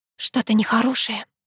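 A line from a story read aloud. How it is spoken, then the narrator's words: Ominous whisper. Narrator (Russian): зловещим шепотом проговорила я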